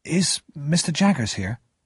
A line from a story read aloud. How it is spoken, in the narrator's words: I asked nervously